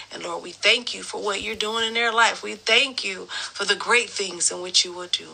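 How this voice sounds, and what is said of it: Choked-up, emotional voice. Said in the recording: “I am getting choked up here. ... my throat is doing something.”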